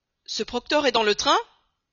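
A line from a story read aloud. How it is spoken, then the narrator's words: Exclaimed. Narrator (French): s'écria Fix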